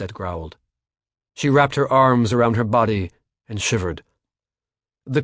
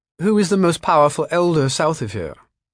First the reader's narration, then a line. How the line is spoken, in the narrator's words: Dee asked quickly